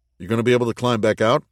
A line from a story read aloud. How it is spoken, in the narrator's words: asked Mark